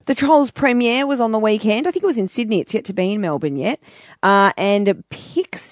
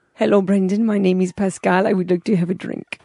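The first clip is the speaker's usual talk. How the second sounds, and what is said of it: Put-on French accent. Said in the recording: “my best French accent ... Do your French accent.”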